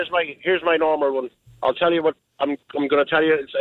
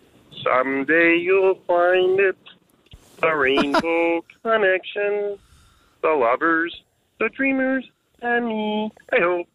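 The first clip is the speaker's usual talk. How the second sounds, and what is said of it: Singing Kermit the Frog impression. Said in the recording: “It's a Kermit the Frog. ... I'm going to sing it for you. ... doing a Brooklyn accent.”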